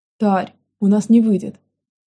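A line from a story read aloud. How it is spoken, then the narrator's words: Frustrated sigh. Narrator (Russian): Спустя пару минут бесплодных попыток вздохнула Аника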